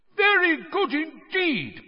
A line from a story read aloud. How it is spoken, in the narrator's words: Bagman was shouting